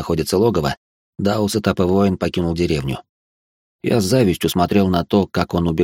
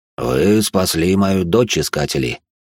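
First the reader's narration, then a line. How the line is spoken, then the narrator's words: Low, slightly husky voice. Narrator (Russian): Голос главы рода Хима был низким, немного с хрипотцой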